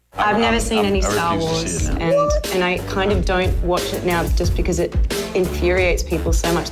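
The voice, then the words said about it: Australian accent. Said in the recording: “I love her Australian accent”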